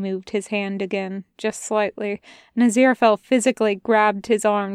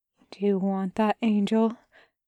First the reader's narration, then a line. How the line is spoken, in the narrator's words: asked, his own voice barely a whisper